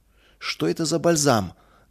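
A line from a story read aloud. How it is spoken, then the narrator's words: Deliberately rude suspicious question. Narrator (Russian): нарочито грубо спросил Мельник, недоверчиво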